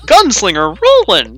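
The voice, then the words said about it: Goofy character voice. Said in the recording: “I was trying to do a goofy voice, but I just cannot... It was pretty good, there.”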